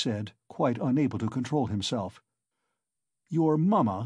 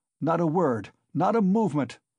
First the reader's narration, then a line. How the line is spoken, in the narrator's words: cried Raskolnikov